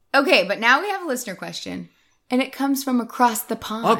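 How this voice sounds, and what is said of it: Usual voice. Nothing is said of it.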